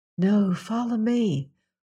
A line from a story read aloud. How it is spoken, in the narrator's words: whispered Jane Ellen